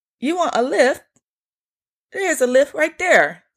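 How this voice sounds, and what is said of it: Put-on British accent, very high voice. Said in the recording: “I'm horrible at the accent, but his voice was extremely high.”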